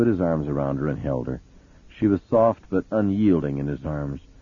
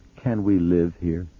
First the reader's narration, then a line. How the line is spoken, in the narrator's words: she managed in an unsteady voice